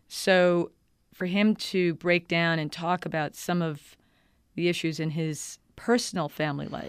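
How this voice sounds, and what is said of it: New York accent. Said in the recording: “I'm a New Yorker. You probably can hear that in my accent.”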